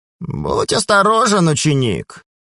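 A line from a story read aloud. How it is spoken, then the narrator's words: Creaky female voice nearby. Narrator (Russian): Проскрипел рядом голос хранительницы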